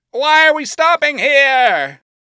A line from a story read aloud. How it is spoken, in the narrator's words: Alistair called, screaming over the gale of wind